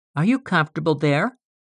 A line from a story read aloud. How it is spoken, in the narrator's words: she asked